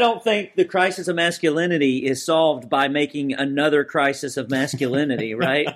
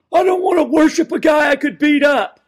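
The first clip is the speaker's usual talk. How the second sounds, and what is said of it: Imitates another person's voice. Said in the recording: “that was a really good impression”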